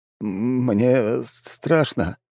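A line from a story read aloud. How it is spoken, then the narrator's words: Mumbling man. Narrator (Russian): промямлил мужчина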